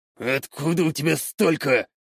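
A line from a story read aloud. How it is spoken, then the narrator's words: Faltering half-mutter. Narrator (Russian): Только и смог пробормотать он полслова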